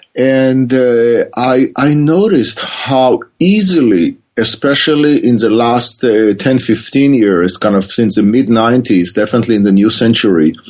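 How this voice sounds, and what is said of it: Israeli accent. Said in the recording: “I grew up in Israel. This is where my accent is from.”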